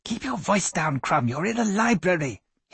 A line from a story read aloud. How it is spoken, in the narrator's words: hissed Dr